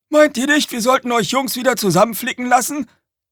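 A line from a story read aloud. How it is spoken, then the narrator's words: Calling from the cab. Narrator (German): rief Red aus der Fahrerkabine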